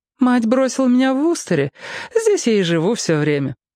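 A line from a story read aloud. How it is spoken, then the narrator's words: Cheerful. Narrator (Russian): ответила она весело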